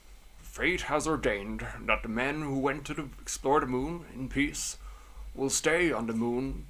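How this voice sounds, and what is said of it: Imitates another person's voice. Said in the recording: “in my Nixon voice”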